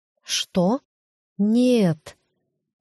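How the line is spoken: Drawn-out disbelief. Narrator (Russian): протянула в неверие

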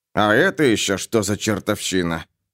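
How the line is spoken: Muttered. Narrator (Russian): пробормотал Гарри

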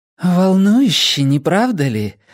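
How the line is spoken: Breathy exhale. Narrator (Russian): выдохнула она

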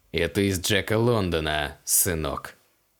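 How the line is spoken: Through gritted teeth. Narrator (Russian): процедил капеллан

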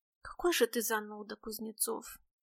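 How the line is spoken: Sigh. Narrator (Russian): вздохнула Настя

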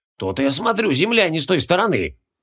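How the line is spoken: Muttering. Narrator (Russian): пробормотал Мао

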